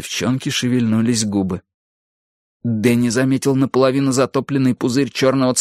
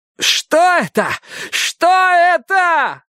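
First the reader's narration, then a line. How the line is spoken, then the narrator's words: Yell. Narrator (Russian): завопил он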